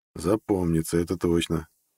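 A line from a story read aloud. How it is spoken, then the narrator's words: Muttered. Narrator (Russian): Пробормотал я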